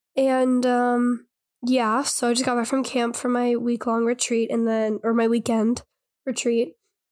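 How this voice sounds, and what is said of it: Hoarse, allergy-affected voice. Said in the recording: “my allergies are like running rampant ... I can hear it in your voice ... my voice is really hoarse from like yelling and screaming”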